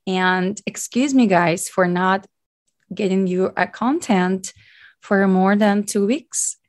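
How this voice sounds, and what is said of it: Deep, hoarse voice after illness. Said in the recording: “sorry for my little deep voice ... I got kind of sick and I lost my voice completely”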